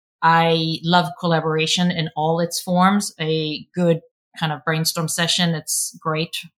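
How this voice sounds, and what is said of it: Swedish accent. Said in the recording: “I'm a homegrown Swede. I've been told I have an accent”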